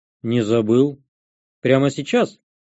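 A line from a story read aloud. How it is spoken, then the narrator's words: Plain. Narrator (Russian): спросил я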